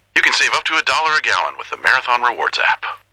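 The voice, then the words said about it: Impression of the announcer's voice. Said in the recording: “We asked people if they could do an impression of me ... That last one was pretty good.”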